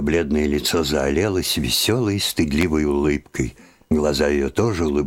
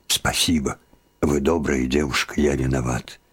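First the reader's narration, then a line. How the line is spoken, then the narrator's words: Agitated furtive whisper. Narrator (Russian): Лаврецкий, все еще взволнованный, украдкой шепнул ей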